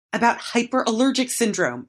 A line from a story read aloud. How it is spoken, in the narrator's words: I wheezed as soon as the coughing jag eased up